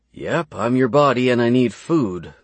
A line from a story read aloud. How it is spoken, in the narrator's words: that grumble seemed to say